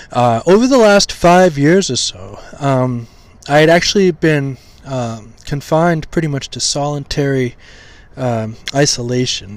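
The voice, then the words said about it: Slightly hoarse voice. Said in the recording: “my voice is starting to get a little hoarse... my vocal cords are weak... I apologize if my voice gets hoarse”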